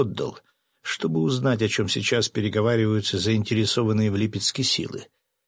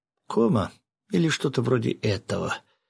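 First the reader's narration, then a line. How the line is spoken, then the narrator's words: Quiet. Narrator (Russian): тихо проговорила Акая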